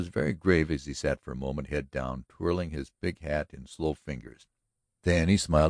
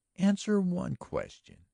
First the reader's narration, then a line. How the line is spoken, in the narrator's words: she urged earnestly